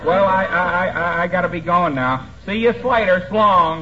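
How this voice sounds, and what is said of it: Drawling accent, dragged syllables. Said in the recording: “Interesting accent that boy has ... Seems to be suffering from hungover syllables.”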